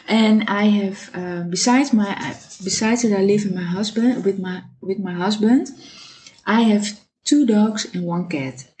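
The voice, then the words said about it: Dutch-accented English. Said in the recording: “I live in Amsterdam, so mind my accent.”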